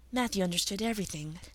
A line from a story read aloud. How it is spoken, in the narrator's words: said Anne softly, as she always spoke of him